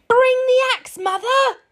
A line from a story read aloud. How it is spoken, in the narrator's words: shouted as he neared the ground